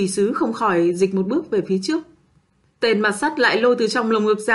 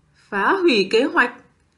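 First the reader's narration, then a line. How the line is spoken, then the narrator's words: Slowly rising voice. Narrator (Vietnamese): Tên mặt sắt từ từ cất cao giọng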